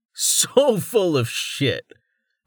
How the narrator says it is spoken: Rain said with a laugh

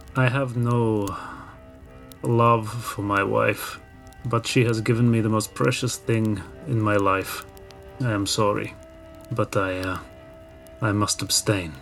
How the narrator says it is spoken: Timur will look very sadly into the eyes of his Dakini and say

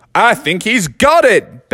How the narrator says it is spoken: bellowed out Colonel Sanders from up on his royal throne

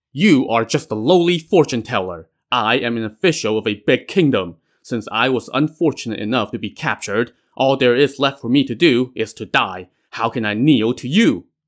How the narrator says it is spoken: Cao Lei glowered and barked

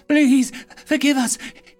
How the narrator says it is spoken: he cried, as his tears stained the ground

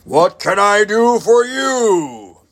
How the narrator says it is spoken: he hailed in a mighty voice that made Joe's ears ring

